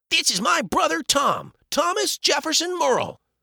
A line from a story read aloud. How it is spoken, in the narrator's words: Joel blurted out